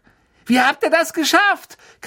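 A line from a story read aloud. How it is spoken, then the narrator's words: Shrieking. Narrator (German): kreischte Angelina Johnson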